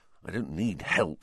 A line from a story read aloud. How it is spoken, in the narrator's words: Ron whispered